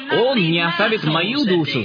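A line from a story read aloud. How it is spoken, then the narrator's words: Plain. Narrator (Russian): сказал Давид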